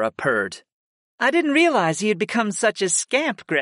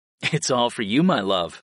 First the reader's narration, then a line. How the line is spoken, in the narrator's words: I chuckled